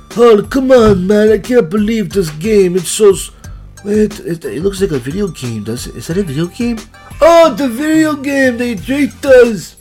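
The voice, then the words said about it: Put-on unidentified foreign accent. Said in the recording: “I don't know what accent that is, by the way.”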